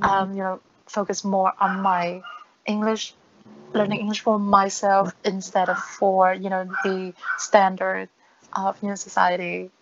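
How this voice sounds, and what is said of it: Mixed non-native English accent. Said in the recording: “my accent is very strange to most people. I think my my accent just like a mix of a lot of things ... just sounds weird.”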